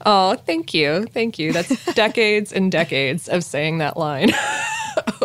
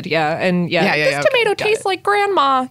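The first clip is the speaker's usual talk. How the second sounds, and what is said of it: Impression of a cartoon kid's voice. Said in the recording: “That was a very good impression.”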